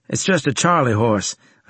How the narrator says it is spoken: I said

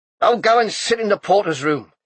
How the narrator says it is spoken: he said impatiently

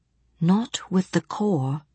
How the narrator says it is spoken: Johnny said softly

